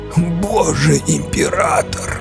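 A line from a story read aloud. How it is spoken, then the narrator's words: Fading hoarse rasp. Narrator (Russian): Только и успел прохрипеть Кензер, прежде чем упасть в обморок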